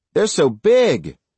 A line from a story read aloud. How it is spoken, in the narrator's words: Little Bit cried